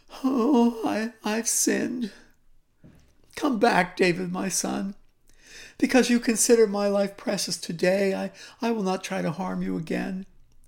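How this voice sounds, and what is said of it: Pitiful, pleading voice. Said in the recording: “in a pitiful voice,”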